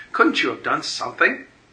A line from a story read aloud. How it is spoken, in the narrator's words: cried Evelyn